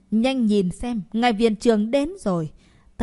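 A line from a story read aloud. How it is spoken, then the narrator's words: Sudden loud shout. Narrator (Vietnamese): Bỗng không biết ai hét lớn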